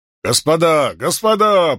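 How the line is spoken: Booming voice from behind. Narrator (Russian): прогремел сзади чей-то голос

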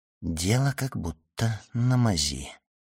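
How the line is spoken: Whisper. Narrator (Russian): прошептал Данглар

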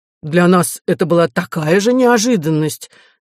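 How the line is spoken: Unconvincing exclamation. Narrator (Russian): неубедительно воскликнул Артур

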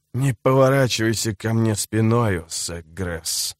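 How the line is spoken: Hissed. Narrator (Russian): прошипел он

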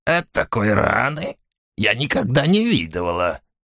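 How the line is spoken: Hoarse, rusty voice. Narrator (Russian): сказала она таким хриплым голосом, словно ей нечасто приходилось им пользоваться

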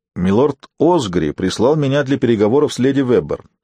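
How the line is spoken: Plain. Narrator (Russian): ответил Дунк

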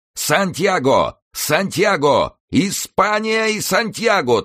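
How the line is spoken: Frenzied group yelling. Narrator (Russian): в иступлении орали мои товарищи

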